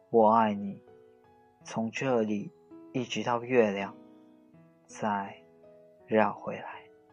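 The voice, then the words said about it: Soft, quiet smiling voice. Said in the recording (Chinese): “小声的微笑着说”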